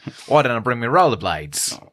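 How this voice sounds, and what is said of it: Put-on Australian accent. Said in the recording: “this accent that I'm doing ... It's dead on ... Just a laundry list of Australian slurs we're doing”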